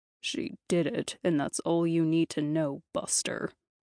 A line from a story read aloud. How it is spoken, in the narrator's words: Lou growled